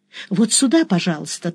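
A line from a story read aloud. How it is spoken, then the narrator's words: Hurried woman's offer. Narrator (Russian): торопливо предложила мне женщина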